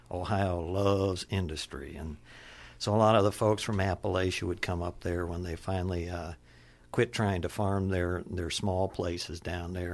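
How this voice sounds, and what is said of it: Appalachian Kentucky accent. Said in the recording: “your accent, the way that you speak, is far more Appalachian, more Kentucky”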